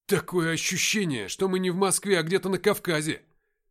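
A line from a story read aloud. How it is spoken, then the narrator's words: Shouting. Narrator (Russian): прокричал я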